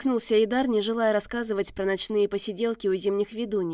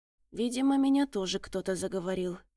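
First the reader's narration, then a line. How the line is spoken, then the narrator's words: Muttered. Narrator (Russian): пробормотал следопыт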